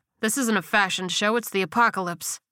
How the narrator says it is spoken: he snapped

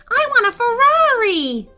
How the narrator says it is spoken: shouted another

